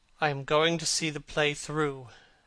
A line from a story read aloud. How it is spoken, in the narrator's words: answered the lad in a hard, bitter voice